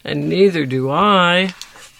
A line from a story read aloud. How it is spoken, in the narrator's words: groaned Box